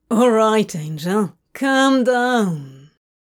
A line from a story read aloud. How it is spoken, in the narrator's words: he drawled